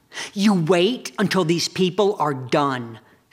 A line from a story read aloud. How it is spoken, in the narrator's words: snapped one of the suntan girls